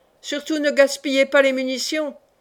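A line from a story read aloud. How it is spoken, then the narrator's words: Leader's thundering call. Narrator (French): clama la voix tonnante du chef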